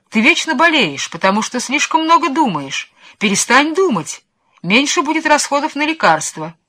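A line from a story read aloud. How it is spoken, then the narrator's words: Shouted at him. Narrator (Russian): графини снова кричали на него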